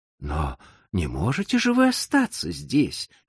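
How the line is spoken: Exclaimed. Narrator (Russian): воскликнул Гофман

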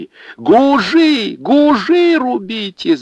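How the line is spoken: Shout. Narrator (Russian): закричала Анфиса

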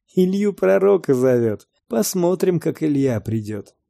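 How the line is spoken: Crowd talking, laughing. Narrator (Russian): в народе стали говорить и смеяться

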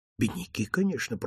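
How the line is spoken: Whisper. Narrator (Russian): прошептал Дон

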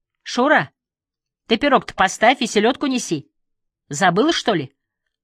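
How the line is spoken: Sharp scolding shout. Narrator (Russian): прикрикнула лиса

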